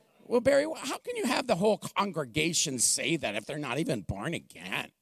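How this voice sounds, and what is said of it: Whiny put-on voice. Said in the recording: “How do you like my whiny voice? Is it pretty good?”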